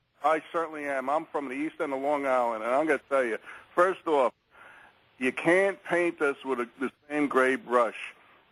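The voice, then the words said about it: New York accent. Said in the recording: “You sound like a New Yorker”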